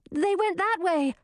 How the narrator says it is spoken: Grisina shouted

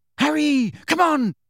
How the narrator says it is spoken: shrieked Hermione from the centre of the knot of people now fighting to get out

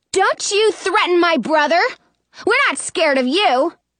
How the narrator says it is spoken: I yell

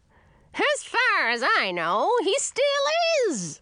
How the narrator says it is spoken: screeched my grandmother

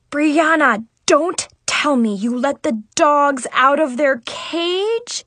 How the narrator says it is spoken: I groaned

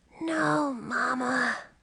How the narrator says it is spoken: Ralph whispered

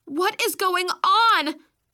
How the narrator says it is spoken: I yelled

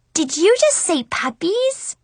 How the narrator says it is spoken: Marcy gasped excitedly

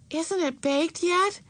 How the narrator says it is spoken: exclaimed Beezus

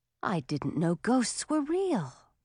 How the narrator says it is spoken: breathed Audun

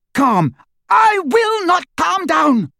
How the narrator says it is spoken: she screamed

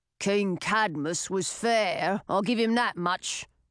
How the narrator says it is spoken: the man said in a gruff voice

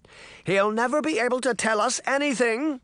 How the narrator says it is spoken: said loudly, as if for the benefit of the three people who had just left

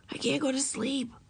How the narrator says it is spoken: whispered Ramona

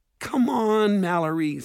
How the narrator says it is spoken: Simon pleaded

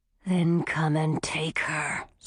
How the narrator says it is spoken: snarled the silver wolf

